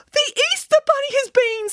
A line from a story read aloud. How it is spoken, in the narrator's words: squealed Boris excitedly